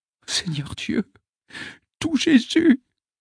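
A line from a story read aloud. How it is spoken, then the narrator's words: Trembling male murmur. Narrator (French): murmure-t-il entre ses dents tremblantes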